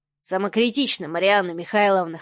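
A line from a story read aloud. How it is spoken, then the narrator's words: Snort. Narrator (Russian): хмыкнул Адмиралов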